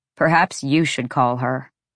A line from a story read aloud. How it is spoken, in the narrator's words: Rune said